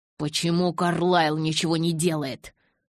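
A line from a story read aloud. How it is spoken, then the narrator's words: Growl. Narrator (Russian): прорычал я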